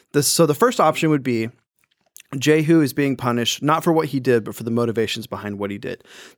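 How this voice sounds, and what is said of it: Tired, slightly wacky voice. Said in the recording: “I'm a little tired, a little bit, my voice is a little bit wacky”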